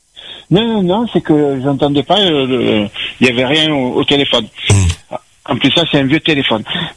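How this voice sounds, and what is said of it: Southern French accent. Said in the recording (French): “Quelle belle accent. ... C'est l'accent du Sud.”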